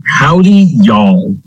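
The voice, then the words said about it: Put-on Western cowboy accent. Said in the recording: “I'm feeling Western today... I'm hoping you're going to keep that accent the whole episode”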